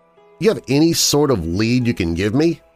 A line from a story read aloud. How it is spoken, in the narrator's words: asked eagerly